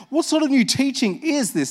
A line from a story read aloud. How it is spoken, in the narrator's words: they asked excitedly